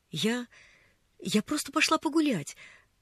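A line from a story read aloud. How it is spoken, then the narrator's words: Babbling. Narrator (Russian): залепетала Поллианна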